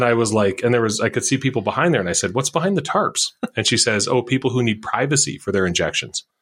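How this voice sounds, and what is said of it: Usual voice. Nothing is said of it.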